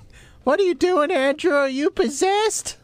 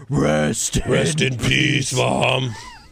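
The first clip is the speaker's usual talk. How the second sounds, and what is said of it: Imitates another person's voice. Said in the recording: “That's exactly how she talks. That's a great impersonation.”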